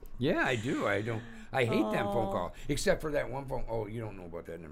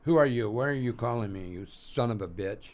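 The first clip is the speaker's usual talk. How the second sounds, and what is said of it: Put-on comic character voice. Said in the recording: “do one of your voices or do one of your impersonations”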